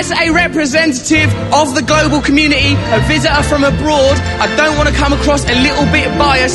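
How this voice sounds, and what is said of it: Cockney-like British accent. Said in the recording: “think he sounds like a chimney sweep from Mary Poppins”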